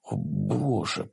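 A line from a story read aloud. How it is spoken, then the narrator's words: Muttering. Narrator (Russian): пробормотал он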